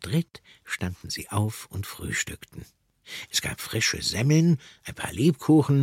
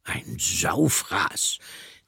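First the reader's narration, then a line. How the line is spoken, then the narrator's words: Satisfied piglet grunt. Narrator (German): grunzte das Ferkel befriedigt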